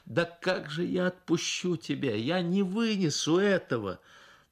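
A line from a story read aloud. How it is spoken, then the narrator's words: Sobbing pleading exclamation. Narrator (Russian): сквозь рыдания с мольбой в голосе воскликнула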